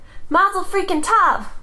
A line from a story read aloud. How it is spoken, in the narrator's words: Augie shouted